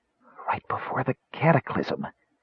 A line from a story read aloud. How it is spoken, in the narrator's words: he whispered